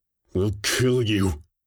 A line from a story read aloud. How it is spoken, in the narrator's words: she said through gritted teeth, over external speakers for emphasis